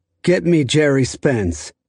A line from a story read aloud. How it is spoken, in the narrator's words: the defendant said